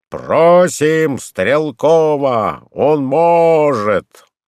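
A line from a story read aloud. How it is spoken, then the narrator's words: Shout from nearby. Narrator (Russian): неподалеку крикнул кто-то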